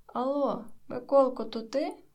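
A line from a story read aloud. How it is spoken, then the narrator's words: Father's joyful call. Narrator (Ukrainian): радісно обізвався батько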